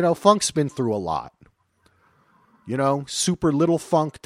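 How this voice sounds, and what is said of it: Usual voice. Nothing is said of it.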